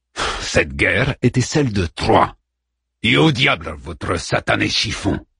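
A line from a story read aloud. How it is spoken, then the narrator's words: Roaring, slightly calmed by wine. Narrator (French): rugit Odysseus, que le vin semblait cependant avoir un peu calmé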